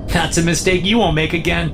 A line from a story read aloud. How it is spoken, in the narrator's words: laughs